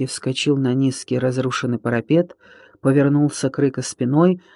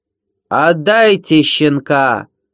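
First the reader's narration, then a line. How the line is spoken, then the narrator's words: Shouted again. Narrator (Russian): снова прокричал Рыка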